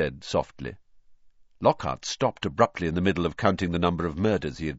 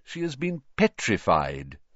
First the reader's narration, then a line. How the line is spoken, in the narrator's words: said Dumbledore